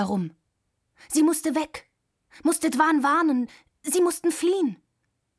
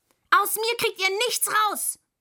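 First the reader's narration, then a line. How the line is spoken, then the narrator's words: Angry shout. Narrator (German): schrie Müh wütend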